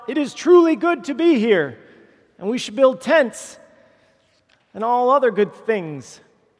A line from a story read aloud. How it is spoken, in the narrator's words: Peter, lovable Peter, not knowing how to respond, blurts out